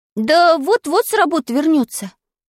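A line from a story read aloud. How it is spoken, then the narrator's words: Sighing. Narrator (Russian): вздохнул я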